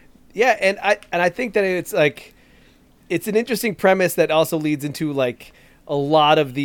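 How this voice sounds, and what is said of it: Usual voice. Nothing is said of it.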